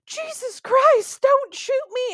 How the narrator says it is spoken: somebody on the property scream

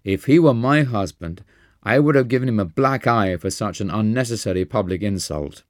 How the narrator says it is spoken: had cried

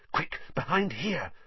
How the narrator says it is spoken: Harry hissed

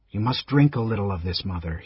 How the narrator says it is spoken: he said softly

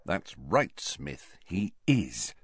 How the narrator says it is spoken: muttered Harry, grinning to himself

